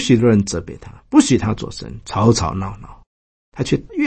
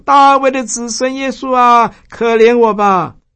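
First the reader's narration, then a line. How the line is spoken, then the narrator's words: Crying out. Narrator (Chinese): 就喊着说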